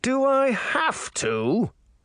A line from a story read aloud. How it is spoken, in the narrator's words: Charming groaned